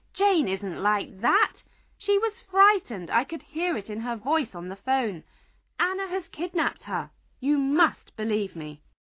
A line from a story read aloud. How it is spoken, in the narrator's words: Alan shouted